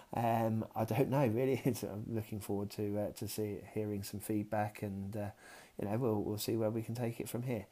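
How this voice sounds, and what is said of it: Southern English accent, near London. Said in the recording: “I'm definitely not from Liverpool. I'm definitely a southerner, sort of more nearer to London. Not necessarily a Cockney either.”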